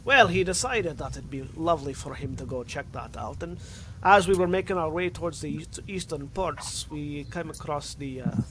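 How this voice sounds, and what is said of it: Put-on Russian accent. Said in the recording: “I'm slowly getting into Russian accent ... I'm slowly going from Scottish to Russian ... stuck in Russian ... Becoming Russian.”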